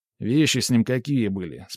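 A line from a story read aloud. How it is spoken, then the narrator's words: Plain. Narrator (Russian): спросил я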